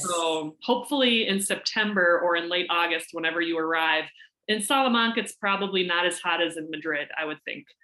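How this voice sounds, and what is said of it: Minnesota accent. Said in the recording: “I hear your Minnesota accent. ... I hope it's not too strong”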